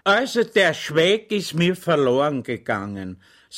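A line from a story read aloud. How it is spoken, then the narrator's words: Plain. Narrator (German): sagte Auditor Bernis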